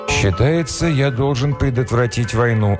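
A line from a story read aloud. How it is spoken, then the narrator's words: Sighing. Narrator (Russian): Ретив вздохнул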